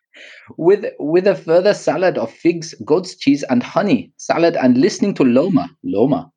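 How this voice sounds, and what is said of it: Put-on foreign accent. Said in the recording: “All I heard was the accent”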